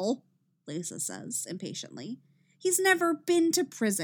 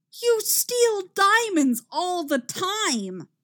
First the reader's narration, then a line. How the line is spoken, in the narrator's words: Cisco shouts